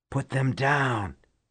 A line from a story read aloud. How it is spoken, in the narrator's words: he hissed at her